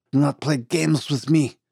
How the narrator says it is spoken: snarled Dumont, falling into a coughing fit again

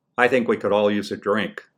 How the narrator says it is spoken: said my father

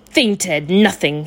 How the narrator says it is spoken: sneered

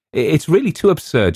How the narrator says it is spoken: laughed out

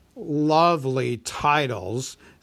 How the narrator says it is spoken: sneered the dragon

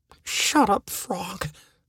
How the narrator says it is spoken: I whispered

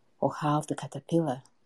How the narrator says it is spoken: grunted the egret

